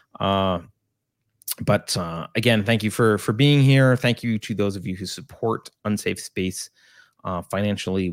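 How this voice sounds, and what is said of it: Sick, low-energy voice. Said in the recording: “my voice is a little bit weird, and I know I'm a little bit lower energy than normal ... I am still COVID-ed up”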